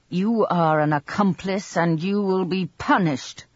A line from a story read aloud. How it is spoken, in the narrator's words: shouted